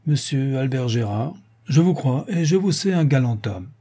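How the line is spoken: Calm, grave, aloud. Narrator (French): Haut, d'une voix calme et grave

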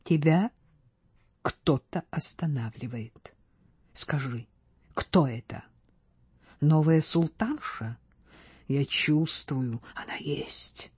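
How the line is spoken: Quiet, anxious. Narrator (Russian): Марк-графиня тихо, с беспокойством сказала

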